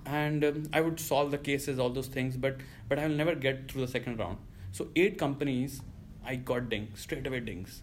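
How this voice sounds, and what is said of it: Indian-accented English. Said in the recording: “I have a very heavy Indian accent ... Now it has improved”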